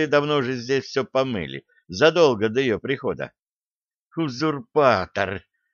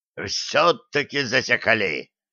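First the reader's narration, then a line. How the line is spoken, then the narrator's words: Unfamiliar growling voice. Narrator (Russian): рыкнул чей-то незнакомый голос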